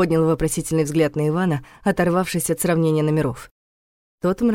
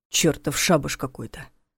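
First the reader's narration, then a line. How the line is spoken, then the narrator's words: Grumble. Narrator (Russian): проворчал он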